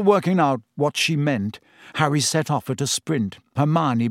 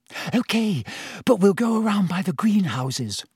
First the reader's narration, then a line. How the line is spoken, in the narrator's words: said Hermione breathlessly